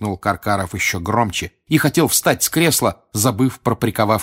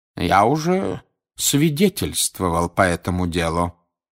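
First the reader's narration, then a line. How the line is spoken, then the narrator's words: Calm. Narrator (Russian): спокойно сказал он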